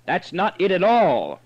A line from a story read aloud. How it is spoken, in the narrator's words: roared, half rising, as though tempted to throw himself